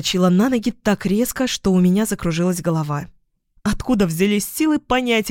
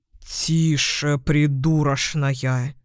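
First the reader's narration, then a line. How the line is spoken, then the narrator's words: Hiss. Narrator (Russian): зашипел Яспер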